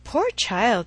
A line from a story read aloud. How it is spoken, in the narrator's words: cried Emma